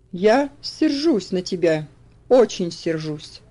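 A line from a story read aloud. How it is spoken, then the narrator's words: Stern tone. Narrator (Russian): ответил он тем же суровым тоном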